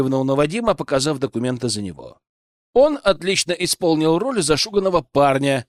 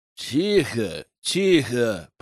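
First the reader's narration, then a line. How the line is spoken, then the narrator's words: Grumbled by soldier. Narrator (Russian): пробурчал солдат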